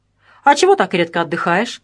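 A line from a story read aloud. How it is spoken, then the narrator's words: Smirking grunt. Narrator (Russian): Васильчиков хмыкнул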